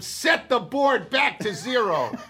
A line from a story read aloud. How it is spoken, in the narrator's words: yells louder this time